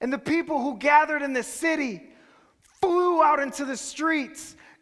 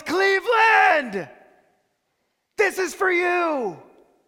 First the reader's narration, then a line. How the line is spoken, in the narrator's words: he swings his head back and he yells